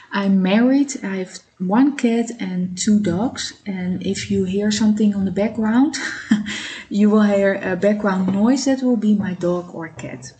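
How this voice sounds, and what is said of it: Dutch-accented English. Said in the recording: “I live in Amsterdam. That's why you hear my accent.”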